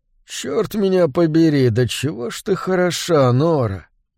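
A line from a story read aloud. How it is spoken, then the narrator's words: Husky mutter. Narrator (Russian): хрипловато пробормотал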